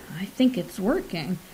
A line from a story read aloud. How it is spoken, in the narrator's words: Colgan cleared his throat nervously and murmured